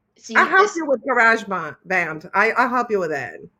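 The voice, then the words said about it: Slight Brazilian accent. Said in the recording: “a little Brazilian accent”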